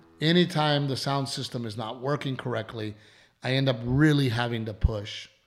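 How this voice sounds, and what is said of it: Strained, hoarse voice. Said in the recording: “losing my voice ... my voice is all fucked up”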